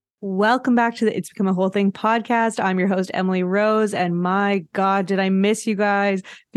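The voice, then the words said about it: Joyful, grinning voice. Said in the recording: “you hear the joy in my voice? ... I'm just grinning to myself”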